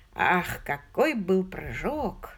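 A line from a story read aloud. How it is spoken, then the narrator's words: Sigh. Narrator (Russian): вздохнул Том Барнабас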